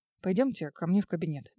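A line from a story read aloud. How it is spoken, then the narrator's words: Gentle. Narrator (Russian): мягко проговорил Герман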